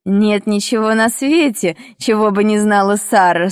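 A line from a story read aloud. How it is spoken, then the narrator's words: Strange laugh. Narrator (Russian): странно засмеялась она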